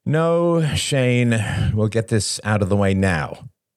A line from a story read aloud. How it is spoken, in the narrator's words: sighed